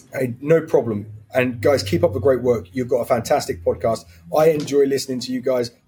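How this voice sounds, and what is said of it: Man speaking with an accent. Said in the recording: “he has an accent, because I'm a sucker for an accent ... he's got an accent”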